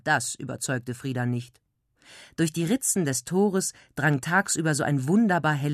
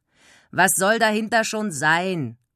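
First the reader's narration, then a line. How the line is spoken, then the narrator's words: Uncomprehending grunt. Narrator (German): grunzte Wilma verständnislos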